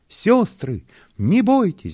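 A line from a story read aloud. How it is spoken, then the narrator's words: Loud shout, lively carrot. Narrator (Russian): громко крикнула самая бойкая морковь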